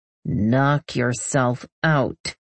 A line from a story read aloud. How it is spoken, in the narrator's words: I growl